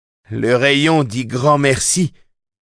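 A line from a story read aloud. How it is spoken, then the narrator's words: Shouted. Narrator (French): cria-t-il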